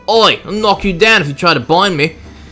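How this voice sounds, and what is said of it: Put-on Cockney-ish character accent. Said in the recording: “That's my Corrin voice ... Which has turned from Australian to, I guess, more of a Cockney thing. I'm bad at accents.”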